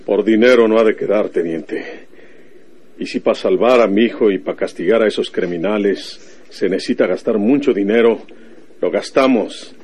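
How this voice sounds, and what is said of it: Northern Mexican accent. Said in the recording (Spanish): “tu acento norteño, por tu modo de hablar”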